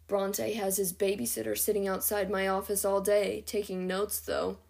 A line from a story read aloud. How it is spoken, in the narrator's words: Quinlan grumbled